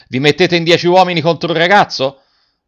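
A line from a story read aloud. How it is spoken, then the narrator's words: Shout. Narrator (Italian): Garrone gridando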